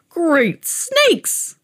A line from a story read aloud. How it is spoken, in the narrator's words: croaked the old man